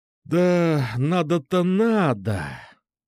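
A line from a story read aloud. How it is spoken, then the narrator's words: Sighing. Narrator (Russian): вздохнул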